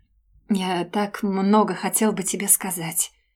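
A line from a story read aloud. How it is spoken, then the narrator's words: Anguished whisper. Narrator (Russian): прошептал он, и что-то внутри меня шелохнулось от надрывности его голоса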